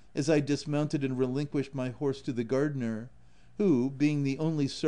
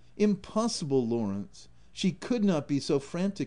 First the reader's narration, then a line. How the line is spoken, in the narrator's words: exclaimed I, vehemently